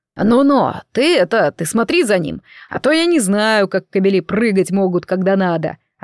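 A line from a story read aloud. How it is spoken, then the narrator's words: Cautious deep bass. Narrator (Russian): осторожно пробасил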